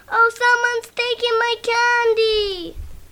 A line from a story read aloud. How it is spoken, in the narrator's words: Flossie cried